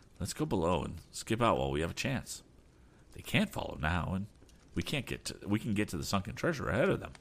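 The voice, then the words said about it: Low, hushed voice. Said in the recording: “proposed Tom in a low voice”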